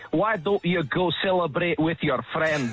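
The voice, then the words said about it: Put-on Scottish accent. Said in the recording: “That's the Scottish accent”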